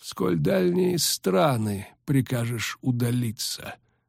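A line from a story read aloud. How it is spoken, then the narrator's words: Slow question. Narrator (Russian): медленно спросил Регис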